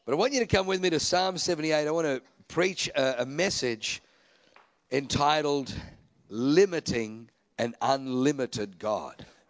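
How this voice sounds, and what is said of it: Australian accent. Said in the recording (Dutch): “I have a German name and an Australian accent.”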